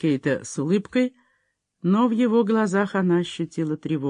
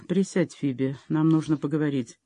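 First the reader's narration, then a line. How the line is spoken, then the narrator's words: Calm. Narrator (Russian): он спокойно сказал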